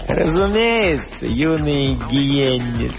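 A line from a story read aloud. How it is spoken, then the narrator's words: Old man purring. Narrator (Russian): замурлыкал старик Рури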